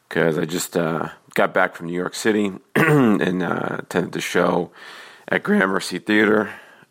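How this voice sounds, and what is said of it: Slightly hoarse voice. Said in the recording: “I'm a little hoarse... forgive me for my voice”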